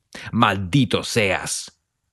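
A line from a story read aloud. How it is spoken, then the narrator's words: Man bellowing. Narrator (Spanish): bramó otro hombre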